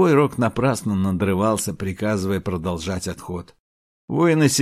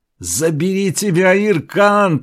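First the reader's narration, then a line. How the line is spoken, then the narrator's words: Shout. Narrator (Russian): прокричал Селенг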